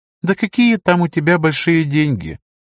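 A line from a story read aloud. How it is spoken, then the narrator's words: Mocking, smiling. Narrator (Russian): Ларл насмешливо улыбнулся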